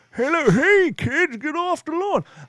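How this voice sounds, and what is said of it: Old man character voice. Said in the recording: “talking like an old man”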